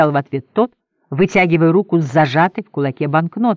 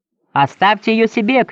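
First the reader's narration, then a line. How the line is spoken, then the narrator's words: Shouted. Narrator (Russian): крикнул ему Генри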